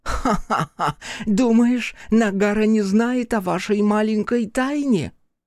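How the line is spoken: Mad cackling laughter. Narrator (Russian): Хока хохотала как безумная

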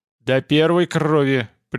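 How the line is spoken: Stern warning. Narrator (Russian): предупредил конунг строго

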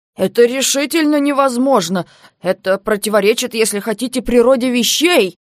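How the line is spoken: Moaning aloud. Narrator (Russian): Он застонал в голос

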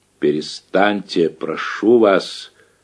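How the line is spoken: Very quiet. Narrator (Russian): совсем тихо проговорил Половцев

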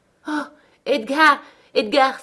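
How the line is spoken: Breathless exclamation. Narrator (French): s'écria-t-elle haletante

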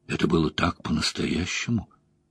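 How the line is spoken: Whispered. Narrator (Russian): шепотом произнесла Найнев

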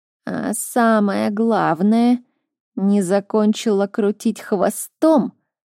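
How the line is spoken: Loud nasty creaking voice. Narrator (Russian): На весь кабинет проскрипел противный голос главного советника

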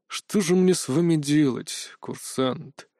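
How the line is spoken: Heavy sigh. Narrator (Russian): Тяжело вздохнул директор

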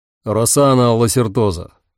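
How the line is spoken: Spoke loudly. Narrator (Russian): громко заговорил Дамиан

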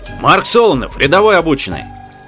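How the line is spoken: Dashing bark. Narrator (Russian): Молодецкий гаркнул

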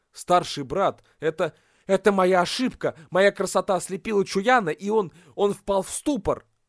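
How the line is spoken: Frightened, ashamed mumble. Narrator (Russian): испуганно и стыдливо, пробормотал

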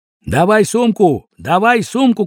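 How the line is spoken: Many voices shouting together. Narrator (Russian): кричали все чуть не хором

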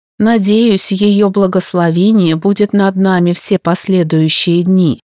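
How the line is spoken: Plain. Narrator (Russian): сказал Коджи

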